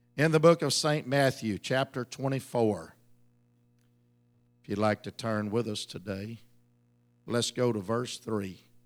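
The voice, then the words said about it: Ragged, worn-out voice. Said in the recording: “my voice is a little bit ragged”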